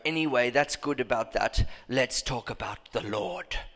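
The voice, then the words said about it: Put-on German accent. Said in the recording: “because he's German, right? ... Was that a good accent? Did I do that all right? That was all right, wasn't it?”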